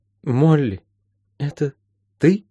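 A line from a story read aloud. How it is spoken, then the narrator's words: Faltering babble. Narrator (Russian): пролепетала мама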